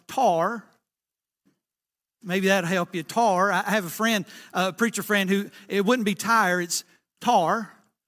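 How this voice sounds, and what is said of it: Thick Southern American accent. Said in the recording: “real thick southern accent like myself”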